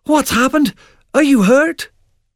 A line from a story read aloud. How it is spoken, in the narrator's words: he cried